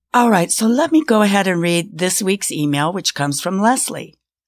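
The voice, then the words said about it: Slightly rough, off voice. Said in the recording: “my voice is a little off. I do suffer from an occasional bronchitis attack”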